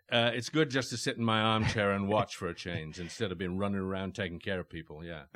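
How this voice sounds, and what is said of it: Distinctive British accent. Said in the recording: “authentic ... distinctive British voice accent”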